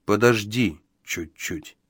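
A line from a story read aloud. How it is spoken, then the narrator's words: Soft. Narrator (Russian): мягко произнес он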